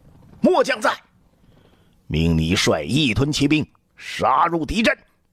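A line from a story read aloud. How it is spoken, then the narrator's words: Hoarse desperate shout. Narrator (Chinese): 李广声嘶力竭地喊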